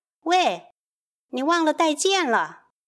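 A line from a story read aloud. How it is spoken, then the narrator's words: Wife shouting. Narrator (Chinese): 他太太比他细心多了，冲着他大叫了一声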